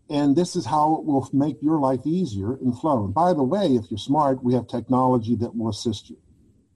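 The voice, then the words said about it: Pittsburgh accent. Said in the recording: “I have that Pittsburgh accent”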